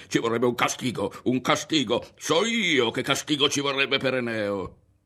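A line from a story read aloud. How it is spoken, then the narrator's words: Incessant shouting. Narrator (Italian): Non smetteva di gridare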